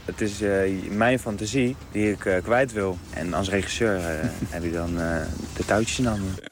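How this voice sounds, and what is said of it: Leiden Dutch regional accent. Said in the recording (Dutch): “accent wat je daar nog hebt... Leids accent... Haags of een Leids”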